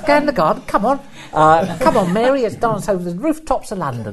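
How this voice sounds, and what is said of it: Dick Van Dyke Mary Poppins impression. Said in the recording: “my Dick Van Dyke impression ... when I first saw Mary Poppins with that impression ... I'd never heard any accent like that”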